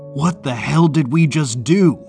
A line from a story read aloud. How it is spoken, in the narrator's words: he cried